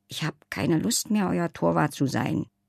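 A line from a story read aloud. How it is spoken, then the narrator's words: Too quiet to hear. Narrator (German): sagte Leiselotte, aber wieder so leise, dass Sven es nicht hörte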